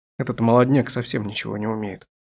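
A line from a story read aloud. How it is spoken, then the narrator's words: Grumbled. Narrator (Russian): буркнул охотник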